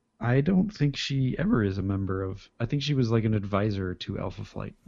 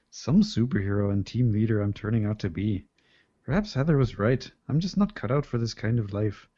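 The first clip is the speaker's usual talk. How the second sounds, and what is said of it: Canadian accent slipping into Scottish. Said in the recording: “my Canadian accent slips into a Scottish accent”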